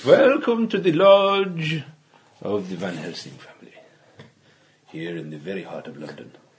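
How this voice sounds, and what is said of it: Put-on Welsh-Indian accent. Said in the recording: “your famous Welsh-Indian crossover accent ... Or possibly Mumbai”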